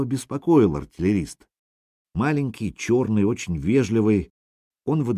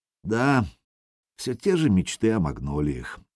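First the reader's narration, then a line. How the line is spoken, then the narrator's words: Sighing. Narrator (Russian): вздохнул тренер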